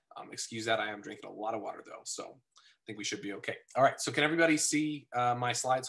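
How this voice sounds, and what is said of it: Slightly raw, sick-sounding voice. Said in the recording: “I am coming down a little sick ... my voice sounds a little raw”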